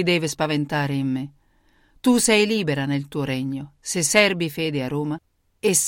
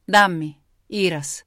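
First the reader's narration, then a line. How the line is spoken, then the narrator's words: Confident voice. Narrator (Italian): disse con voce sicura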